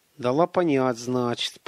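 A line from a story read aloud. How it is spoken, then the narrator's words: Grumbling. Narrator (Russian): проворчал Гарин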